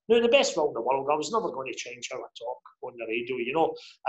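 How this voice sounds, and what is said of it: Scottish Lanarkshire accent. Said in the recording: “the way I talk ... His Lanarkshire accent”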